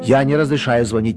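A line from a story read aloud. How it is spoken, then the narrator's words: Irritated. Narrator (Russian): проговорил раздраженно председатель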